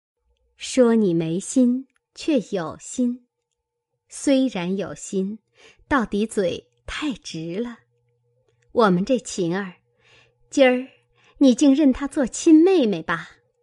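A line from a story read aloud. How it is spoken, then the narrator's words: Laughing. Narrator (Chinese): 宝钗笑道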